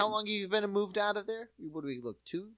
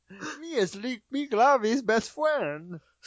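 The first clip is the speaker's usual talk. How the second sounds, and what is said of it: Fake character voice. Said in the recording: “fake voice”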